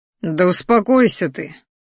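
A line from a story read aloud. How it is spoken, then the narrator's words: Tired. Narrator (Russian): устало произнес я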